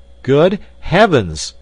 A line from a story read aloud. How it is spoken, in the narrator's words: I cried